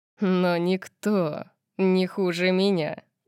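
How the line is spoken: Menacing wolfish growl. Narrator (Russian): сказал он волчьим рычанием, от которого у меня ёкнуло сердце

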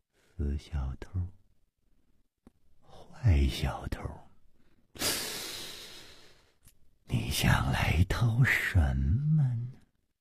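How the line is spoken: Murmuring to herself. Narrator (Chinese): 薛宝宝喃喃地说

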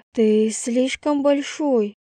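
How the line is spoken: Moaning loudly with pleasure. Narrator (Russian): простонала я, громко крича от удовольствия

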